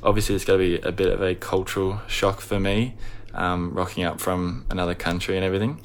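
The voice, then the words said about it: Australian accent. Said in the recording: “You can probably tell from my accent, I'm from Australia.”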